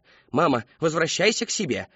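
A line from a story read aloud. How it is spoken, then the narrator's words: Barked. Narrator (Russian): рявкнула миссис Коллинз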